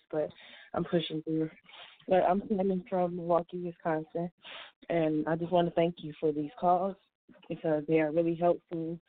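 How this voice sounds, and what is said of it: Sick-sounding voice. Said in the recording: “a little sick. you can hear it in my voice”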